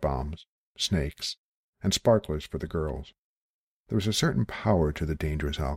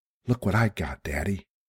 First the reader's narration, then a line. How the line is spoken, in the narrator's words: he said breathlessly